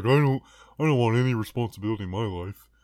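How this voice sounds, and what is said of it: Imitates another person's voice. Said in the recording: “That's a very good impersonation of me.”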